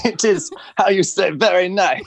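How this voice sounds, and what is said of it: Attempted French accent. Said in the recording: “I tried to do a French accent. It just sounds like Borat.”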